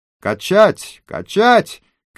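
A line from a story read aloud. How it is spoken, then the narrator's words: Group shouting. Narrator (Russian): кричали они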